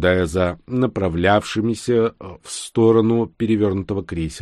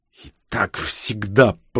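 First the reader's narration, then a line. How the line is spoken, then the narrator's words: Hissed. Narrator (Russian): прошипела Ксения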